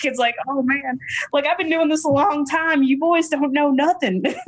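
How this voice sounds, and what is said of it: Put-on Texas Southern accent. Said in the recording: “my Texas Southern accent”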